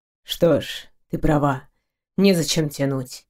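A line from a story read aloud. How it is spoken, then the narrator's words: Gloomy curt remark. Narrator (Russian): мрачно бросил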